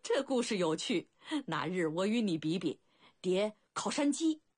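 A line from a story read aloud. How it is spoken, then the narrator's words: Loud laughing, breathless. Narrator (Chinese): 秦昭王笑得最响，喘着气道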